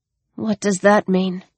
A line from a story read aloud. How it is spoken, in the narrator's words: She asked miserably